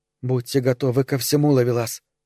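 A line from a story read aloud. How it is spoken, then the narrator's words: Whispered. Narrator (Russian): зашептала она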